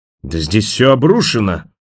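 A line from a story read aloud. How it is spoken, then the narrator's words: Horrified bark. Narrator (Russian): в ужасе рявкнул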